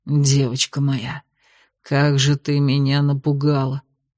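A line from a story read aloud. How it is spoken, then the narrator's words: Whispered. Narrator (Russian): шептал он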